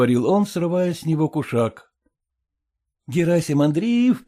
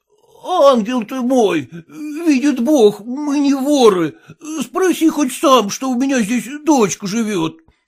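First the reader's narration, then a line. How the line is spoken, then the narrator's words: Moaning. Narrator (Russian): стонал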